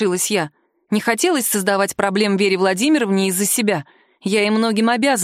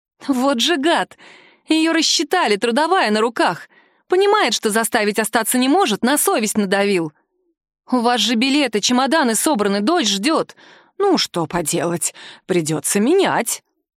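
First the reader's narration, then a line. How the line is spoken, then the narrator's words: Worried sigh. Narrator (Russian): вздохнула она озабоченно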